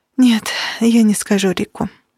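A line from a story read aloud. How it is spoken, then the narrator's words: Sighing. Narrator (Russian): вздохнула Кира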